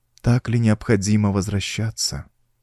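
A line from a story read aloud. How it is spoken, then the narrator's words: Sad, pleading question. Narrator (Russian): печально спросила Мариамис с ноткой мольбы в голосе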